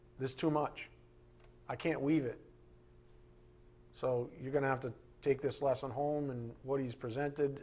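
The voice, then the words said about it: Almost monotone delivery. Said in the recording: “I'm kind of almost monotone”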